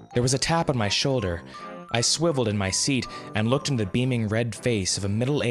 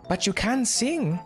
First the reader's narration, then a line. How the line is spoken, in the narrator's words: she asked rather anxiously